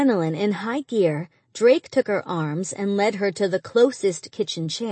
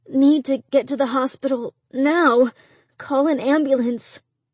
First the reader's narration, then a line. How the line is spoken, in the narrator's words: Through clenched teeth, Angie mumbled